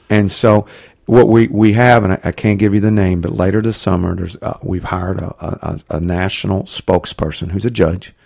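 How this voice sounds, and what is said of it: Southeastern US accent. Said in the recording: “you can tell from my accent, sort of a southeastern company”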